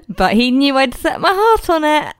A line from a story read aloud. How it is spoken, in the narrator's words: Audrey chuckled fondly at the memory